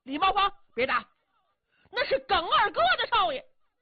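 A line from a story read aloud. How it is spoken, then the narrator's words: Loud shouting. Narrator (Chinese): 耿耳 陪同高声喊嚷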